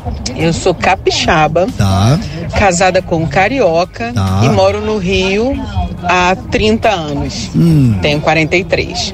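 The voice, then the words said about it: Brazilian regional accent. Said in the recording (Portuguese): “Gostei demais do sotaque.”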